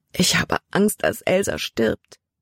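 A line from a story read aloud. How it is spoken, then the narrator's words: Sobbing. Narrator (German): schluchzte sie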